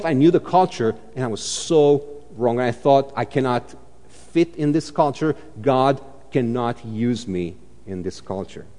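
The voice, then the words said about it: Dracula-like accent. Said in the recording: “my accent was just like Hotel Transylvania kind of Dracula accent ... When I'm tired, it gets thick”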